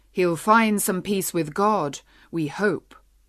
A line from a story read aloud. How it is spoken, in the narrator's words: The man by the fire repeated cheerfully in his deep voice